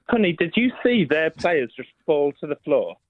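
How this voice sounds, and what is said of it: Exaggerated stereotyped camp voice. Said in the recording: “If you're trying to do a gay voice, that's the worst gay voice ever. Come on, man. You can do better than that.”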